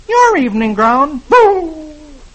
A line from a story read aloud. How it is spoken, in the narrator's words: Dagwood exclaims